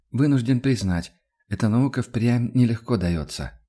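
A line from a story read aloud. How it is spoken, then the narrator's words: Sigh. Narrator (Russian): вздохнул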